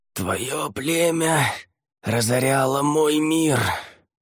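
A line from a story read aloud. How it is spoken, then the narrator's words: Hoarse rasp. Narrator (Russian): прохрипел он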